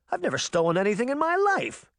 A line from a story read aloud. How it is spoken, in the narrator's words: Cindy exclaimed